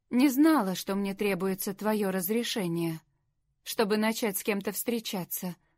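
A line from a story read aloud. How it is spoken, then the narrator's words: Calm. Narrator (Russian): спокойно сказала Лори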